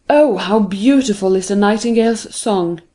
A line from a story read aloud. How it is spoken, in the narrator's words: they exclaimed